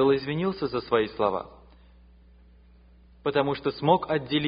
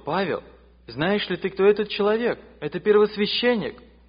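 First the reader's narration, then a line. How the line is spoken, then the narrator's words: Exclamation from crowd. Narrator (Russian): В толпе кто-то воскликнул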